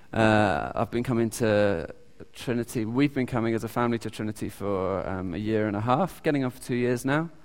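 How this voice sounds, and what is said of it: British accent. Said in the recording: “I'm from the UK. You can probably hear my accent.”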